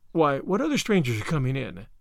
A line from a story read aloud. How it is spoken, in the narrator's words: asked Marilla